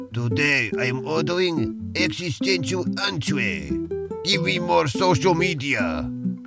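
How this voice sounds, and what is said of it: Weak put-on Russian accent. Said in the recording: “bad Russian impression ... this Russian accent really is lacking”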